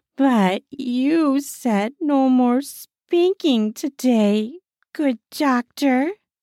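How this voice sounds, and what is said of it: Pouty, sulky voice. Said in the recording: “In the poutiest voice I can muster”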